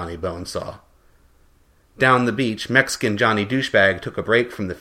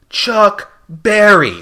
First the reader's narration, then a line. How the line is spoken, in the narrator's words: shouted Red